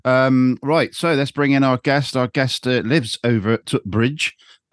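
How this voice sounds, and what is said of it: Put-on northern English accent. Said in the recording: “I don't know why I did a northern accent.”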